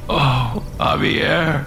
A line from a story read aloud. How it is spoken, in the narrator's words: Alex whimpered